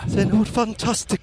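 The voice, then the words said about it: Poor put-on northeast English accent. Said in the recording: “I'd like to apologise to anyone from or even who's ever been to northeast of England that I'm doing one ... shonky accent.”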